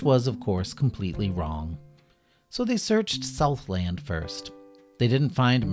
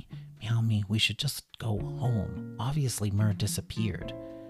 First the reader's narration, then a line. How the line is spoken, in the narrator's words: Kitty whispered to Bunny